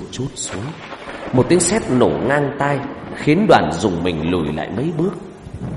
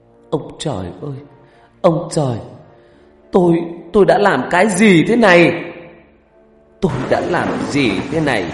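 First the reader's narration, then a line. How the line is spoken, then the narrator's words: Woman wailing, screaming. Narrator (Vietnamese): người đàn bà này gào khóc, thét lên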